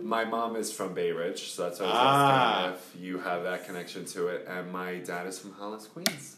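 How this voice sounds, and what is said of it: Long Island accent. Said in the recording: “I like the accent.”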